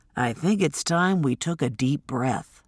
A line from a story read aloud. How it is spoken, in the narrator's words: Quincy said softly